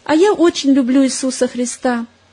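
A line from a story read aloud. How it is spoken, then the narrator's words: Joyful child. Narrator (Russian): мальчик … радостно сказал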